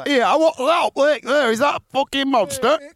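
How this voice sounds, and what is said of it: Exaggerated Cumbrian accent. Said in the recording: “Cumbrian accent. It's kind of it's like mine, but a bit stronger”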